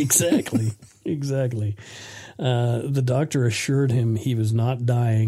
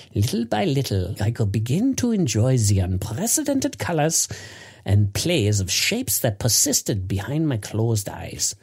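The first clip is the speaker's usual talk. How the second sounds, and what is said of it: Deliberately poor fake German accent. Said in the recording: “I'll do a really shitty German accent here.”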